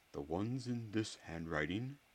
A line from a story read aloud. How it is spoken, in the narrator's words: he said, still in that low voice